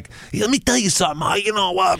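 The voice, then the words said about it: Exaggerated mock New York accent. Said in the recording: “his accent's fucking terrible ... A New York accent ... And his is like exaggerated.”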